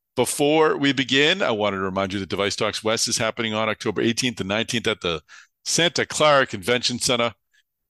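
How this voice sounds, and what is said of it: Boston accent. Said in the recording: “There's my Boston accent.”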